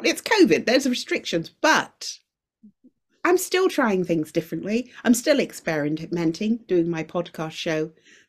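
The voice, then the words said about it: Speaks with a noticeable accent. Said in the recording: “I love your accent as well.”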